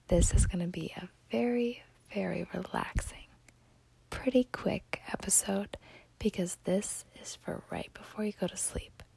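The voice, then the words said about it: Lowered, soft, relaxing voice. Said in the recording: “I'm sure you can tell by the way my voice has dropped”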